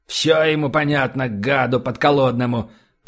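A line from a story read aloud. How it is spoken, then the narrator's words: Grumbled. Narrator (Russian): пробурчал комендант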